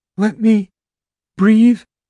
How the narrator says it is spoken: she gasps

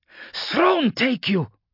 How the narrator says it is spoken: screamed

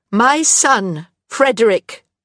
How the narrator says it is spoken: she said, loudly and clearly

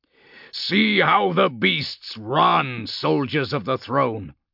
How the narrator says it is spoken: he said, his voice booming over the growl of engines and rattle of nearby gunfire

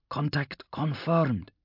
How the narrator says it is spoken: she murmured into the combead

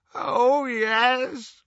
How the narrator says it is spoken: moaned Creature

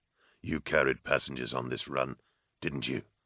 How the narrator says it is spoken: Vorna growled

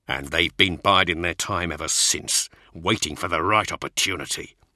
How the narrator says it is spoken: Cole snarled

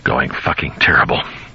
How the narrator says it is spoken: Steve said in a low, harsh voice

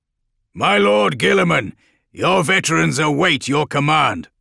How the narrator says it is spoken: said Andros, his voice ringing from the voxmeter set below his helm

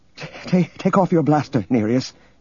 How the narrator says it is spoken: she said shakily

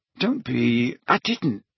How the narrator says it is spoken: muttered Harry awkwardly

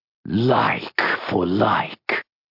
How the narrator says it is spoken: rumbled the dragon

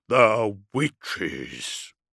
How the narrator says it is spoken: rumbled, and his voice was as thunder upon the suddenly silent field

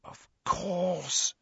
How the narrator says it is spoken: breathed

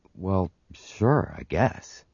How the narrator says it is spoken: he mumbled

